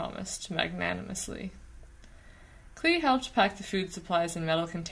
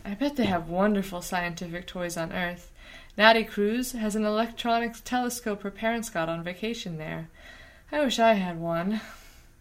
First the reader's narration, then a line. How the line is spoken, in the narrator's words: she added dreamily